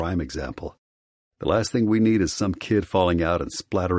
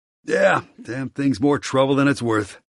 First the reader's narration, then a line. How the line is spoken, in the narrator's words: he sighs, clenching his jaw